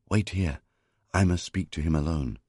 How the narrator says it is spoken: Tahuti whispered

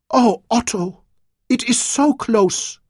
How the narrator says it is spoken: she cried

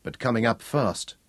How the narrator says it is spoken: he muttered

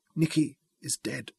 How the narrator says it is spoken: whispered

